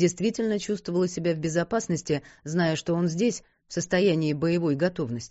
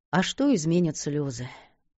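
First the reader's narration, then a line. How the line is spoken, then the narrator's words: Wise, sighing voice. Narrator (Russian): вздохнула с мудростью, несвойственной молодым душам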